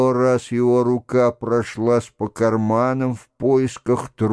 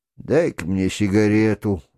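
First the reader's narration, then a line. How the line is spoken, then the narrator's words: Sigh. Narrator (Russian): вздохнул он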